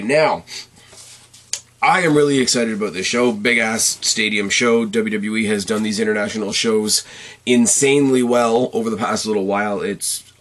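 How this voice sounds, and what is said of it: Strained, partly lost voice. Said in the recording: “Please excuse my voice. I'm already kind of losing it a little bit”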